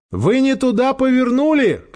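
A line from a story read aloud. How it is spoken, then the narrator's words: Shouting. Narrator (Russian): крикнула Ольга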